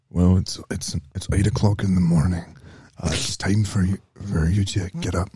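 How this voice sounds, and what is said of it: Weak Liam Neeson impression. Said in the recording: “Liam Neeson... I can't do his voice very well right now”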